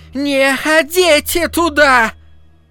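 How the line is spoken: Rusty, strong old woman's shout. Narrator (Russian): Неожиданно своим ржавым, но сильным старческим голосом закричала миссис Кармоди

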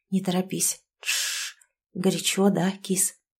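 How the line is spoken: Husky whisper. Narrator (Russian): Сашка хрипло шепчет мне в губы

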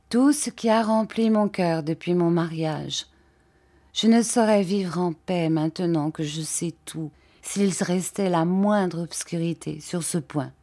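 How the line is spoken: Soft, meek, tender. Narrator (French): dit-elle d'une voix modeste, soumise et tendre

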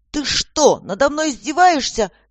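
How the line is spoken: Furious roar, woman. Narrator (Russian): взревела Воронкова

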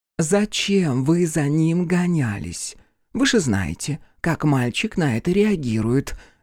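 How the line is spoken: Angry whisper. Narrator (Russian): гневным шепотом осведомилась директриса

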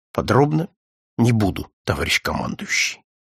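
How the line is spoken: Quiet but firm. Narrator (Russian): Адъютант еще больше оттопырил вздрогнувшие губы и, хотя и тихо, но твердо сказал

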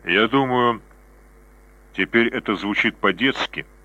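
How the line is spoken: Soft, smiling. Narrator (Russian): мягко улыбнулась она

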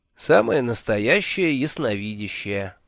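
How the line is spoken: Tired smiling voice. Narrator (Russian): устало улыбнулся я

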